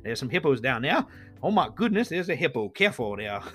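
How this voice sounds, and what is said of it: Puts on an unidentified accent. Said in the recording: “I don't know where that accent came from”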